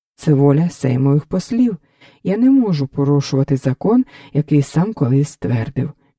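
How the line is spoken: Plain. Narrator (Ukrainian): відповів Понятовський

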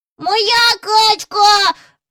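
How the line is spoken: Shrieking. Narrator (Ukrainian): верещав Джон

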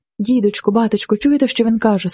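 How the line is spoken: Breathless joyful cry. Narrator (Ukrainian): скрикнула Марина, задихаючись від радості

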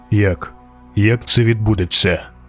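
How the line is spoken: Cold, emotionless question. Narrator (Ukrainian): запитав нарешті, холодно й без емоцій

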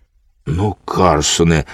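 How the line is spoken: Frightened child. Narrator (Ukrainian): злякано сказав малий, побачивши, як розгнівалася панна цап

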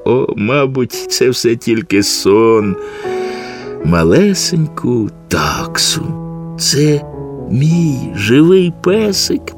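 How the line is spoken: Child whispering. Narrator (Ukrainian): прошепотів малий

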